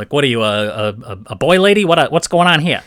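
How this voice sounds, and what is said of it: Put-on New York producer accent. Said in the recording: “with like a New York accent... that was my New Yorker Hollywood type... New York producer”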